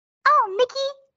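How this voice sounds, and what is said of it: Minnie Mouse voice impression. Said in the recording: “I feel like I can kind of sound like Minnie Mouse. Low-key, but like barely”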